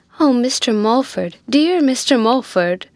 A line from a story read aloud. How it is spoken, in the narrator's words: exclaimed the relict from the corner into which she had been followed and jammed by Biddy